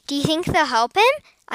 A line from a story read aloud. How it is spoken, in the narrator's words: asked Cassie eagerly